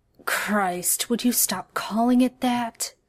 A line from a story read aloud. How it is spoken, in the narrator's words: he groans